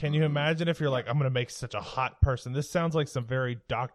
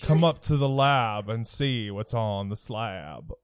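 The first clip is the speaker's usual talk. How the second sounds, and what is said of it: Radio DJ voice. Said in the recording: “That was some very good radio DJ voice.”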